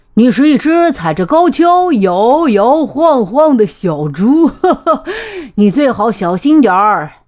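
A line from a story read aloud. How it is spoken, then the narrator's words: Laughing loudly. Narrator (Chinese): 斑马大笑着说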